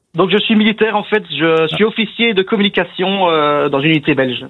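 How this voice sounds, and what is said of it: Belgian Namur accent. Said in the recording (French): “Je sens l'accent de Namur ... Namur en Belgique”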